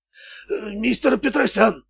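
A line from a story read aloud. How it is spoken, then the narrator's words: Thug forcing words out. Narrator (Russian): выдавил громила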